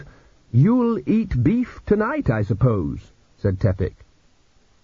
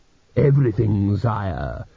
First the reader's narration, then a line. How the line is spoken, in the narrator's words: said Dios smoothly